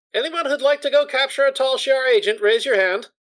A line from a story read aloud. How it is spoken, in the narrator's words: Kara simply yells out